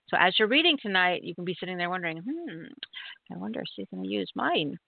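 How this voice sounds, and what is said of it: Playful funny put-on voice. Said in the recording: “Why did I make that funny voice?”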